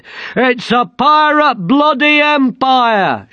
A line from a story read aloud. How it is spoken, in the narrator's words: shouted a speaker